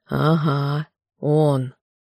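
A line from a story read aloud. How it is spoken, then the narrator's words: Grumbling. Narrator (Russian): Марун проворчал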